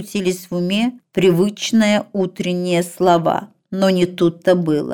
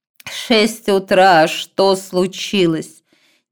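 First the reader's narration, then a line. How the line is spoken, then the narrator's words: Indistinct, through gritted teeth. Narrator (Russian): нечленораздельно процедила она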